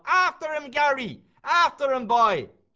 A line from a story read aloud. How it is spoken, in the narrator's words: he's shouting to the bloody dog